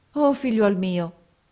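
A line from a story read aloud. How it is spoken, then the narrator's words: Exclaimed. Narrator (Italian): esclamò essa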